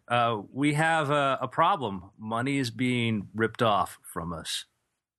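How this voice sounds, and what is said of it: Put-on Polish accent. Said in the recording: “Polish accent”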